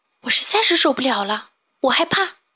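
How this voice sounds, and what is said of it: Quiet, hushed voice. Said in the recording (Chinese): “小蓝鱼却忽然小声地说”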